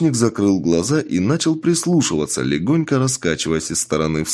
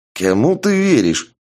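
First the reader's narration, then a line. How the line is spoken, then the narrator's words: Irritated. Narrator (Russian): раздраженно произнес тот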